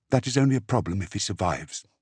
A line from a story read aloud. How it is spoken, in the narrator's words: Dimera whispered back